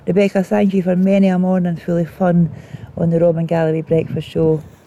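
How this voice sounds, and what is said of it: Attempted Australian accent, not convincing. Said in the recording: “I'm going to try my hardest here to do the Australian accent, but hey, I failed.”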